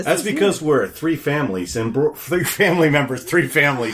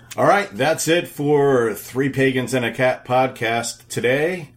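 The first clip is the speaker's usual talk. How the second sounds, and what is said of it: Announcer-style radio voice. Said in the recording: “radio voice.”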